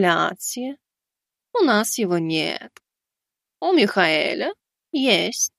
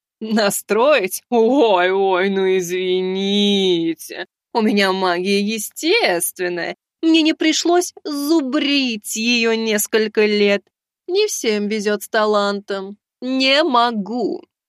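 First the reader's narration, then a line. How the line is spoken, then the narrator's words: Snide. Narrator (Russian): Ехидно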